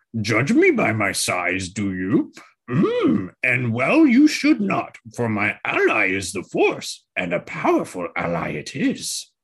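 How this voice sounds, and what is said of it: Yoda impression. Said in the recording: “I haven't done my Yoda impression in a while. That was pretty good, actually.”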